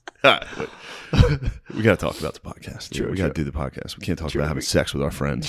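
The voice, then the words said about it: Whispering. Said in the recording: “I'm like whispering this whole... I'm whispering on the podcast.”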